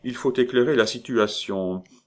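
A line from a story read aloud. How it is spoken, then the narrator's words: Calm composed king. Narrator (French): dit le roi Comérole d'un ton rassis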